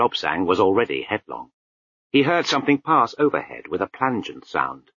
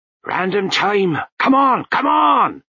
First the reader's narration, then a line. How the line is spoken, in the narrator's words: shouted Lutzer